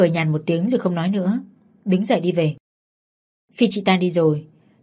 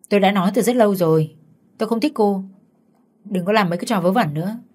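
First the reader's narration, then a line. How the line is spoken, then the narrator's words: Cold. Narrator (Vietnamese): Vũ chỉ lạnh lùng và bảo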